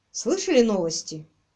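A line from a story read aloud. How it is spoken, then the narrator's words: Gloomy question. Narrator (Russian): мрачно спросил Квиллер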